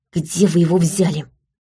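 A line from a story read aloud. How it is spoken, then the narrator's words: Indignant whisper. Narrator (Russian): спросила я возмущенным шепотом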